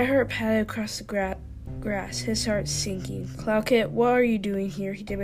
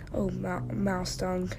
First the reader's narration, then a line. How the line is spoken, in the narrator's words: muttered Graystripe